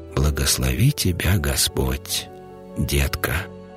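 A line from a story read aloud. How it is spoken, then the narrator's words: Quiet. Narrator (Russian): тихо произнес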